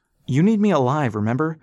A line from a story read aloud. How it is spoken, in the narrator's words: Rass shouted at the gunship